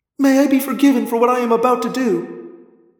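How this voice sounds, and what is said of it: Tortured, anguished voice. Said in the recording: “in a tortured voice”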